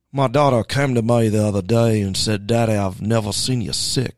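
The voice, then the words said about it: Attempted Cajun accent impression. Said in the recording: “I can't really do a Cajun accent.”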